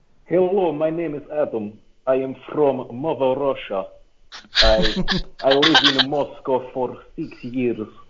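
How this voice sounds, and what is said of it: Put-on Russian accent. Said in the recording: “meerkats do a great Russian accent ... the Russian accent is the one accent I can do pretty well”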